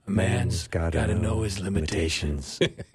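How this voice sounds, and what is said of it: Clint Eastwood impression. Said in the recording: “Clint Eastwood... whose version of Clint Eastwood? Who did a better impression?”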